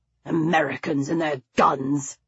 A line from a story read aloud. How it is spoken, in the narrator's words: he muttered